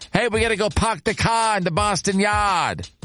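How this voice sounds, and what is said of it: Put-on Boston accent. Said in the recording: “forgive my Boston accent.”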